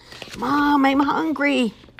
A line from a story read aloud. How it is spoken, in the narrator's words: Hubert shouting